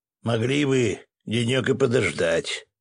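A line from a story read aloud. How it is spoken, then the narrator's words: Grumbling. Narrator (Russian): проворчал соседней кровати Свет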